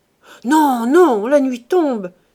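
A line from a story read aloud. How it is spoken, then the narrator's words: Exclaimed. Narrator (French): s'écria Chanteau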